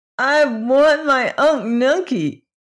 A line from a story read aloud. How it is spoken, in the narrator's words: exclaimed